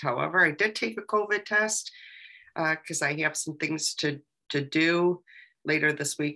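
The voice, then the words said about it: Sick, sinus-affected voice. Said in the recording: “I know you've been under the weather a little bit ... my voice isn't going to sound so great ... I think it's just sinuses”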